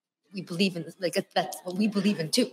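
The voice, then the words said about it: Imitates another person's voice. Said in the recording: “That's a great impression,... I almost thought this was Guillermo.”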